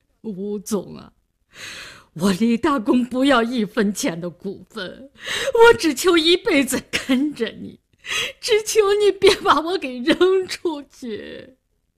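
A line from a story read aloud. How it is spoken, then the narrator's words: Crying, pleading. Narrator (Chinese): 李大公哭了，他哭着说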